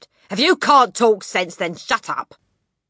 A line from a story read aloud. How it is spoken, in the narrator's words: the father had snapped